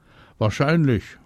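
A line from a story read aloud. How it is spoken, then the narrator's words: Calling back, female. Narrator (German): ruft die zurück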